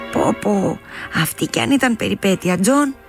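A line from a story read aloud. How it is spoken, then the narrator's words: Laughing woman. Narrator (Greek): του είπε εκείνη γελώντας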